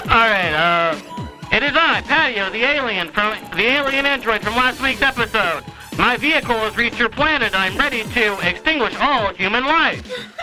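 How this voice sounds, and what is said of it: Alien character voice. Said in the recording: “I can't do the Patio voice very well”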